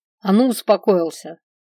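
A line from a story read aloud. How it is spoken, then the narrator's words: Sharp scolding shout. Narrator (Russian): прикрикнула я на переселенца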